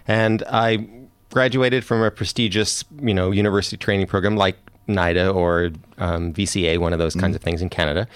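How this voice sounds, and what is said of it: Canadian accent. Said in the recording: “my accent is Canadian”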